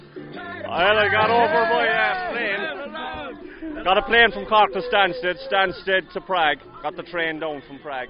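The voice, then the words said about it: Thick Cork accent. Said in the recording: “Listen to that thick accent there.”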